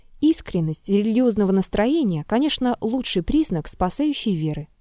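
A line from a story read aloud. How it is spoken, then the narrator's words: Quiet, surprised. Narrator (Russian): Триродов сказал тихо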